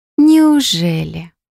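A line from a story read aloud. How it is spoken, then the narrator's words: Honeyed drawl. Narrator (Russian): протянула елейным голоском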